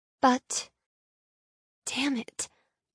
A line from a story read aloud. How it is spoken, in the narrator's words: I mutter out loud